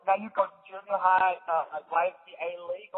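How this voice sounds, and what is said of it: Put-on accent, not quite right. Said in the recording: “I challenge your Dutch... Why is my voice? Like, I don't know what accent I'm doing, but it's not the correct one.”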